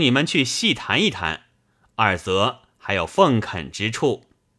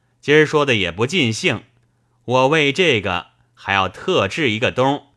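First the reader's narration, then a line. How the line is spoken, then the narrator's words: Laughing. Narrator (Chinese): 冯子英笑道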